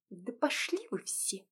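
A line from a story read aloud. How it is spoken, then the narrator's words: Quiet. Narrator (Russian): произнесла негромко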